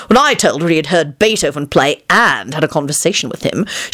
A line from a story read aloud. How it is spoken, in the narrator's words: he declared haughtily